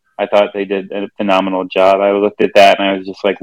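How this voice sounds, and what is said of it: Usual voice. Nothing is said of it.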